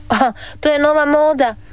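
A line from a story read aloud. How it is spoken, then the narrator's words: Laughing father. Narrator (Croatian): nasmija se tata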